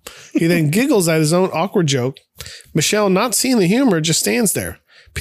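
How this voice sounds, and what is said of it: Usual voice. Nothing is said of it.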